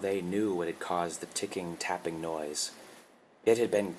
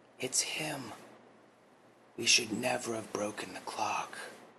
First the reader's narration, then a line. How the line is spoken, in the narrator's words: realization came upon April's face as she whispered over to June